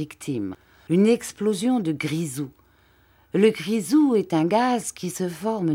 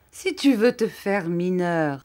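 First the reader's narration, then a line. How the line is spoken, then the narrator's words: Laughing. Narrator (French): ajouta-t-il en riant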